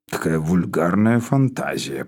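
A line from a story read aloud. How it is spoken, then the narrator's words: Muttered. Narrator (Russian): пробормотал Спиридон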